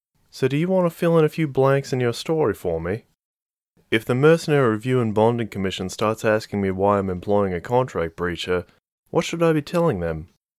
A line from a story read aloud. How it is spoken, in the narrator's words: Marie sighed to herself, trying to think